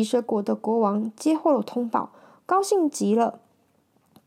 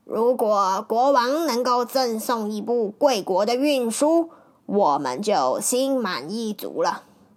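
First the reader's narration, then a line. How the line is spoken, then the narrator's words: After a tight-lipped smile. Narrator (Chinese): 九公对唐敖抿嘴一笑，便说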